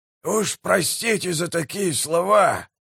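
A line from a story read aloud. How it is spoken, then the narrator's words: Hoarse rasp. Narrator (Russian): прохрипел прищур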